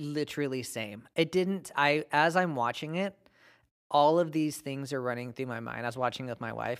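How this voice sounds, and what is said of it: Usual voice. Nothing is said of it.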